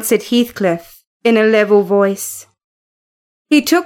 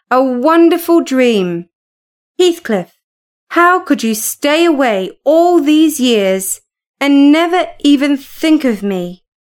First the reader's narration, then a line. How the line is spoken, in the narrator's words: Kathy cried